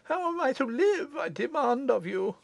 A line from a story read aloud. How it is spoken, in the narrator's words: Madame Foucault asked weakly